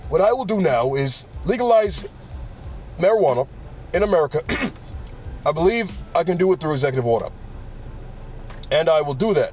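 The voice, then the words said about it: Bad Bernie Sanders impression. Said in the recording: “bad Bernie Sanders impression.”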